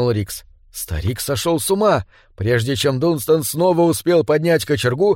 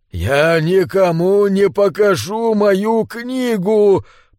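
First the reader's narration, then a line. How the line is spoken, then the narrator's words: Hoarse, strangled repetition. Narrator (Russian): повторил он хриплым, сдавленным голосом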